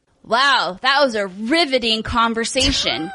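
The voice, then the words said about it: Sarcastic delivery. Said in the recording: “being sarcastic?”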